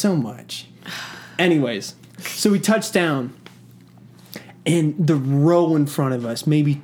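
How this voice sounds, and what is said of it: Usual voice. Nothing is said of it.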